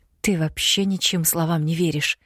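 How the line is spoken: Slightly hoarse, flustered. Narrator (Russian): немного хрипло уточнила я, теряясь от его близости

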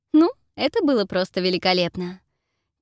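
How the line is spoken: Quiet giggle. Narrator (Russian): тихо хихикает Фелисити

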